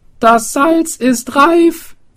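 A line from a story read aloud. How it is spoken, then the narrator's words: Swineherd calling out. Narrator (German): rief der Schweinehirt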